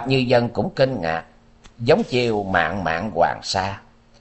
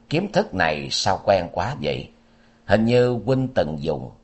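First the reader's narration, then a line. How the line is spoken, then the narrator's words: Soft, surprised. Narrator (Vietnamese): Lý Kiếm Minh khẽ ồ một tiếng, quay sang nói với Bạch Như Vân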